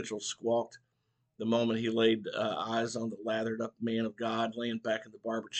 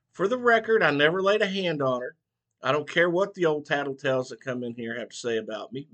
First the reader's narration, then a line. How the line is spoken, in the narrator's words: Mitchell growled